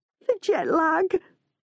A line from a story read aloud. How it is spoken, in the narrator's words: Janice moans